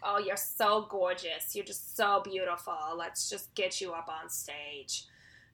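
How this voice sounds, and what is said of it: Put-on New Jersey Housewives accent. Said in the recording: “something like New Jersey Housewives. I don't know if I could do the voice again ... this is my go to accent ... it's like your your spirit accent ... Oh God, it's really bad.”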